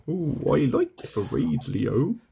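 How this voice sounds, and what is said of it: Impression of a cartoon character's voice. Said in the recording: “That was my impression of Burke from the trapdoor from the episode The Radio.”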